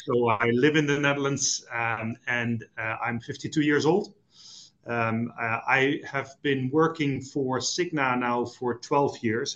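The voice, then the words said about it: Dutch accent. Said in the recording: “Dutch, as you might have uh, picked up by the accent”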